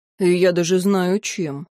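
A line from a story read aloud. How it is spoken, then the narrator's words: Grumbling. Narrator (Russian): проворчал Тьен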